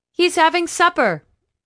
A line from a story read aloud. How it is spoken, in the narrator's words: another called out